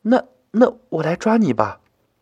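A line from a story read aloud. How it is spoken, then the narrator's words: Hesitant, near tears. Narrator (Chinese): 妞妞一脸又要哭的样子，他有些吞吞吐吐的说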